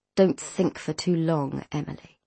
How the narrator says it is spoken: he said quietly

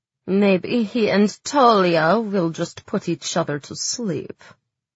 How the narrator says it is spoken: Zoya grumbled

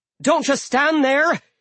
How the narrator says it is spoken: she yelled at me

